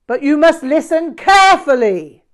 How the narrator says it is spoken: he shouted

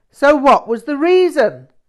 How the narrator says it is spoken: he suddenly shouted

